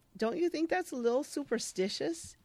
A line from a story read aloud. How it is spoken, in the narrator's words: Isabel chuckles and says